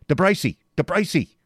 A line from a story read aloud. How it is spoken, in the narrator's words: he shouted